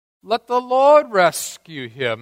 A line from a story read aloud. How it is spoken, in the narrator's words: the mockers shout out